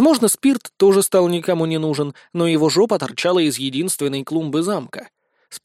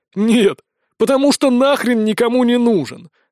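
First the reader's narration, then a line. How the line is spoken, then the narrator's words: Chuckling. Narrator (Russian): хохотнул Сисюля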